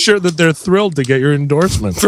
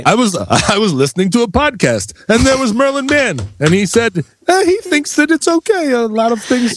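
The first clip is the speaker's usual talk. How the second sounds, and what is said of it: Old Eastern European Jewish man voice. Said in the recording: “whenever I'm imitating an old Jewish man, I speak like Tevye from Fiddler on the Roof ... Eastern Europe ... You sound like a lonely 11-year-old boy impersonating Jackie Mason.”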